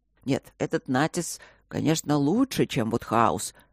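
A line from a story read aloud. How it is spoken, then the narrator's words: Grumbling. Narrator (Russian): бурчал папа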